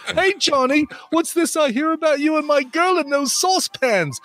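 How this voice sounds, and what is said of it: Wavering Cockney British Australian accent. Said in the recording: “That accent wavered back and forth a little bit. It was Cockney for a second. ... a little British, a little Australian.”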